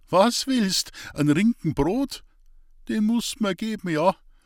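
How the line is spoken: High thin giggle. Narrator (German): Hans-Peter kicherte hoch und dünn

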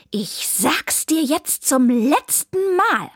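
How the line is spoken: Hissing. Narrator (German): fauchte sie

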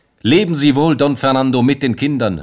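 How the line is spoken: Calling out. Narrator (German): rief Josefe

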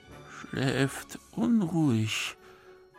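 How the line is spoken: Murmured. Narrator (German): murmelte einer der Soldaten

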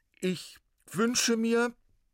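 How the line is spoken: Loud and clear. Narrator (German): sagte laut und deutlich

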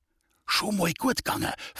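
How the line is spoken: Whisper. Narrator (German): flüsterte der Alois, denn der alte Beck schien uns gar nicht zu bemerken

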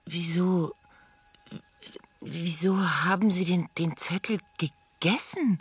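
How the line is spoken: Stammering in disbelief. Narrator (German): stammelte fassungslos

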